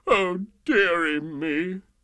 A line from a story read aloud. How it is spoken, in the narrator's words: The King sobbed